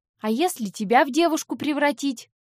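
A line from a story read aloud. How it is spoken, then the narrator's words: Snapping retort. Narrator (Russian): огрызнулась я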